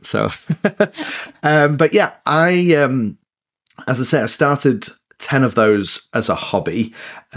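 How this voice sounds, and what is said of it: Mixed northern English accent. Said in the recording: “my accent is a bit, well, it's northern, but it's a bit mixed up... I'm trying to keep my English accent”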